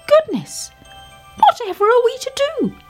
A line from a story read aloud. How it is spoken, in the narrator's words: cried the little fir tree